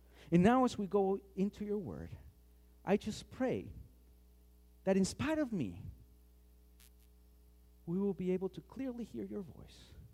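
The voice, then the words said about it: Thick accent. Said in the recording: “this thick accent”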